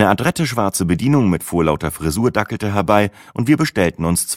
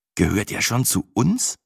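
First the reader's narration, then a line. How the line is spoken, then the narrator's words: Slightly anxious question. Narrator (German): fragte fast ein wenig ängstlich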